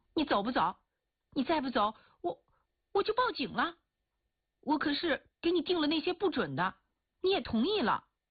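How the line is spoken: Shouting. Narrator (Chinese): 一清娥就喊叫

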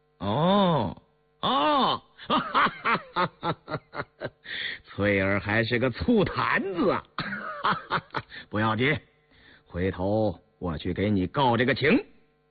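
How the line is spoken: Laughing. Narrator (Chinese): 红丽笑了

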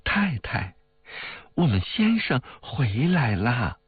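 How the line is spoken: Laughing. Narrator (Chinese): 那女仆笑道

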